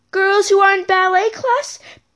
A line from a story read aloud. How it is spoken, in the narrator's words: She began to yell